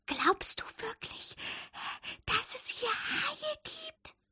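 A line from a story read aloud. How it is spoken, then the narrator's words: Whisper. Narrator (German): flüsterte Fabius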